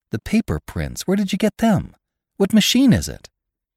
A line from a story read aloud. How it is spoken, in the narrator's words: exclaimed suddenly